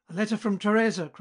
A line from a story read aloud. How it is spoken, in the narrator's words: cried he